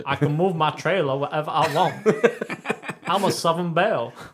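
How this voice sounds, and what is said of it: Put-on Southern American accent. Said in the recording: “That's like proper like South American accent. Not South American. South North America. ... that is a South American trying to do a North American accent.”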